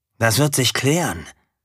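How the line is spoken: Plain. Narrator (German): antwortete Erik Bär

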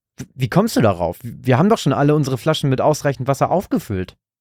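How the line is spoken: Plain. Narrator (German): antwortete ihm Bert

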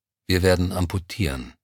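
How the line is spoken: Composed, hiding inner turmoil. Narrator (German): räusperte sich leise, und man merkte seiner Stimme die innere Zerrissenheit nicht an, als er sagte

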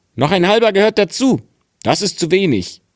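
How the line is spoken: Calling out. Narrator (German): rief

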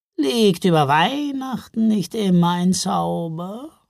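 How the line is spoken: Purring. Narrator (German): schnurrte

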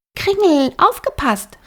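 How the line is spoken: Called out. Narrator (German): rief Flora

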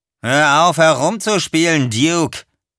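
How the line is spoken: Called out. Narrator (German): rief Earl

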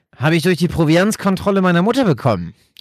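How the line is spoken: Calling out. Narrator (German): rief er

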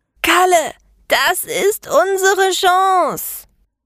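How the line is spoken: Shouted. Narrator (German): schrie die Meisterin

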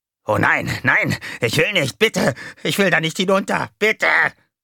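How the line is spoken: Shrieking. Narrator (German): kreischte

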